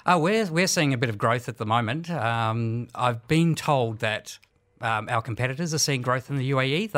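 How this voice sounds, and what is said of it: Australian accent with slight Kiwi tinge. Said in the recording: “my Australian accent and slight Kiwi accent”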